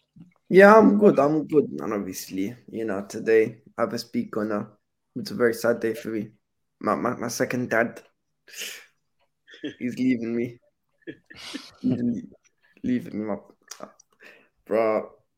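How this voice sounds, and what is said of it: Choked-up, emotional voice. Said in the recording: “You sound all choked up.”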